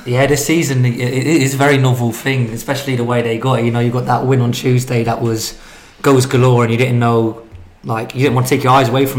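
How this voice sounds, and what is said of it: Hoarse voice. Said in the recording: “a rather hoarse sounding”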